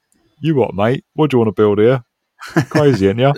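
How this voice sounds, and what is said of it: Put-on Cockney London accent. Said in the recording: “obviously in Taiwanese accents, not in Cockney London accents”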